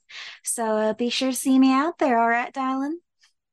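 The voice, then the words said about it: Put-on Southern accent. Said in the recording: “talks a bit like this and kind of uses a bit of a southern accent”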